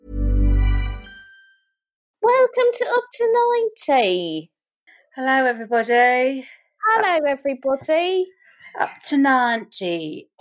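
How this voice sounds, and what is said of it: Put-on English accent. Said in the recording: “if we continue to speak in an English accent”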